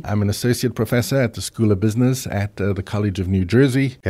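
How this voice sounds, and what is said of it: South African accent. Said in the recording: “What kind of accent was that? ... South African, yes.”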